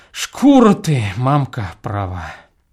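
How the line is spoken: Hurt and sad. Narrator (Russian): Обиженно и грустно закончил он

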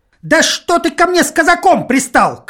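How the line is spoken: Exasperated shout. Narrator (Russian): крикнула Лизавета, выходя из терпения

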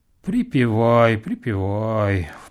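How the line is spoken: Muttered under breath. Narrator (Russian): вполголоса пробормотал Виктор

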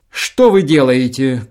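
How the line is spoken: Angry shout. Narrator (Russian): кричит он сердито

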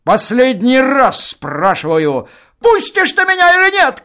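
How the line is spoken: Sudden piercing shout. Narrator (Russian): крикнул он вдруг пронзительным голосом

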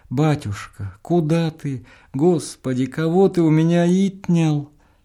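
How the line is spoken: Loud wailing. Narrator (Russian): она принялась вопить

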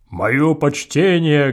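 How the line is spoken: Deep voice imitating a man. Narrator (Russian): говорит она басом, подражая мужскому голосу

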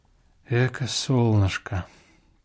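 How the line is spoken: Said under breath. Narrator (Russian): промолвил он вполголоса

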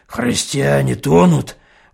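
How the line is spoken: Hoarse grumbling. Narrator (Russian): ворчит солдат, еще более охрипший

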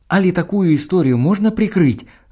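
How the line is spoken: Joyful exclamation. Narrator (Russian): радостно воскликнул дядя Иван

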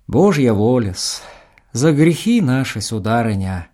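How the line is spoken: Sighing. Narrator (Russian): Денис вздохнул

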